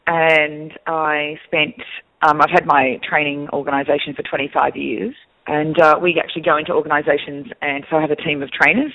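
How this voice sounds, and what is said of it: Australian accent. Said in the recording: “I'm actually originally from Australia. That's where the accent is from.”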